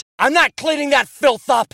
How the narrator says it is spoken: he shouted

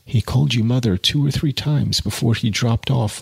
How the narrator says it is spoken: murmured Jude

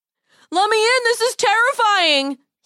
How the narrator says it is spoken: he called out

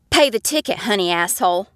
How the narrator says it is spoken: spat back

